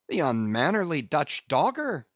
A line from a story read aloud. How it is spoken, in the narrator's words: cried Stubb